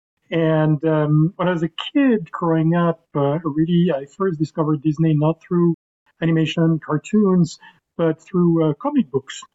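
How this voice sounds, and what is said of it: French accent. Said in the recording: “I was born in Paris, and I grew up in Paris, as you can probably hear from my accent.”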